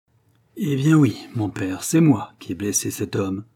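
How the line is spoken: Cold reply. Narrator (French): répondit froidement Robin

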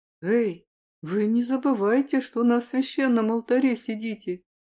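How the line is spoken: Grumbling. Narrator (Russian): заворчал Киллиан

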